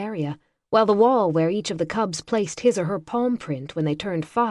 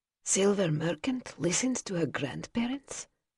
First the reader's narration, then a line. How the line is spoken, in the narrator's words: Nova whispered, eyes wide